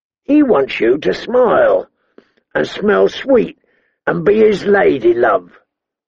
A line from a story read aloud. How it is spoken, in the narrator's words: the hound rasped